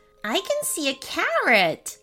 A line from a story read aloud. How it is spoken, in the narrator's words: laughed Ben